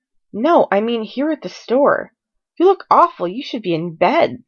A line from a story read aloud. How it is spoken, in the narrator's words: Styles exclaimed